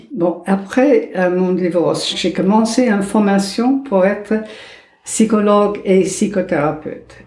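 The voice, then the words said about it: Slight American accent in French. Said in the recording (French): “vous avez un petit accent ... Il ne change jamais ... Il vient d'où ce petit accent ... J'étais née aux États-Unis”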